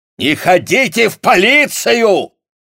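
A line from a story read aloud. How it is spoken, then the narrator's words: Furious yell. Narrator (Russian): заорал он в ярости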